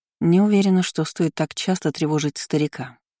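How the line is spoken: Plain, after a pause. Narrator (Russian): сказала наконец

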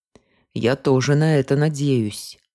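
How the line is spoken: Gloomy agreement. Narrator (Russian): мрачно поддакнул Вальтер

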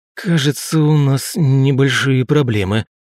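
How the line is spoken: Groaning. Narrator (Russian): простонал

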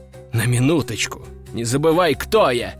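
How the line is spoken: Snorting. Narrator (Russian): фыркнул

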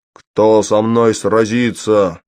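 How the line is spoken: Shouting. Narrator (Russian): закричал он

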